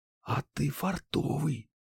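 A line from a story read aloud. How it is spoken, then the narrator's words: Whisper in ear. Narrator (Russian): Банши шепнула мне на ухо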